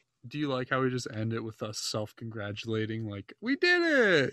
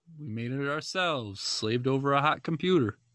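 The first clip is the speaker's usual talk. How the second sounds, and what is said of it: Unidentified put-on accent. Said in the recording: “I don't know what this accent is, but I'm doing it.”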